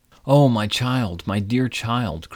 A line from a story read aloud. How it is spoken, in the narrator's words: cried poor Midas